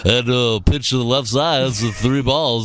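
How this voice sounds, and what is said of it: Baseball announcer voice. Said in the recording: “the baseball announcer voice”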